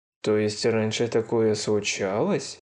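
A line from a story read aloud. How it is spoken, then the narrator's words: Muttering under breath. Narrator (Russian): пробормотал Кузак себе под нос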